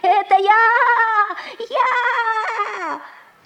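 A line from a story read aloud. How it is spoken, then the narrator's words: Shouting at full voice. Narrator (Russian): лягушка не выдержала и, забыв всякую осторожность, закричала изо всей мочи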